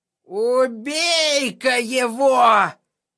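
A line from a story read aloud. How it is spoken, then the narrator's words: Hissing. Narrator (Russian): прошипел из угла какой-то грязный оборванец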